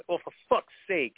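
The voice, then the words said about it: Put-on New York accent. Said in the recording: “I said it like in this New Yorker sort of an accent”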